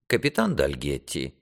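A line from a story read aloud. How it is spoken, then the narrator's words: Dry interruption. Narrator (Russian): сухо прервал его сэр Дункан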